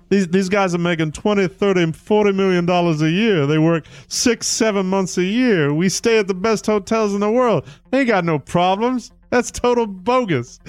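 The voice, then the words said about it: Charles Barkley impression. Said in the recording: “Charles Barkley, I'll do my Charles impression.”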